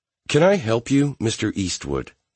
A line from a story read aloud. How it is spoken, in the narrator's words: she asked coldly